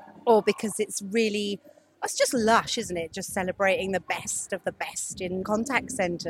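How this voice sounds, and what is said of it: Usual voice. Nothing is said of it.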